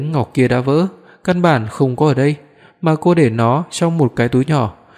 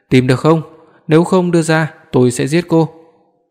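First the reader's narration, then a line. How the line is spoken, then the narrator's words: Sudden shout. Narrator (Vietnamese): Đột nhiên Lý Quý hét lên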